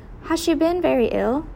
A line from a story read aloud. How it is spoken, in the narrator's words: Eleanor asked softly